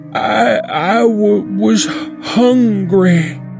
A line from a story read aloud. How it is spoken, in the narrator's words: she stuttered with a thick southern accent